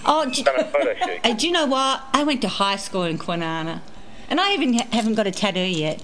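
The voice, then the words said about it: Australian accent. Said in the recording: “accent... Australian, we're not American”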